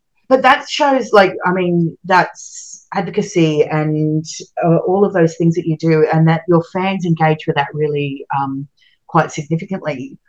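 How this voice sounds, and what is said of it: Australian English accent. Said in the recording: “my Australian accent”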